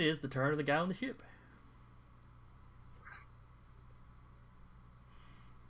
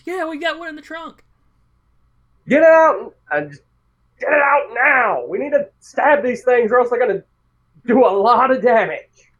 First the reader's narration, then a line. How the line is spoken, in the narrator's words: The blonde guy over here screams